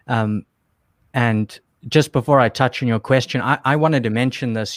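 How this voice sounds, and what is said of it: South African accent. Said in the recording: “I was still in South Africa, which is where I'm from. You can probably hear my accent.”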